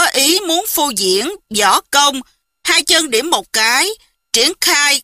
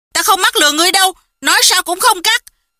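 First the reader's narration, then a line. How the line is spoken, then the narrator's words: Angry. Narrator (Vietnamese): Hầu Thông Hải tức giận nói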